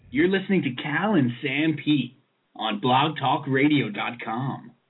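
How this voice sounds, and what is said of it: Announcer-style radio voice. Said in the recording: “my official radio voice”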